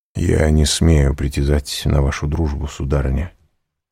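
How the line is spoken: Plain. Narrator (Russian): сказал граф

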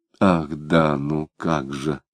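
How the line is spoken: Muttering. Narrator (Russian): пробормотал Самгин

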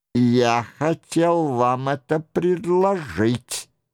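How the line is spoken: Angry grumble. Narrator (Russian): сердито проворчал Анри

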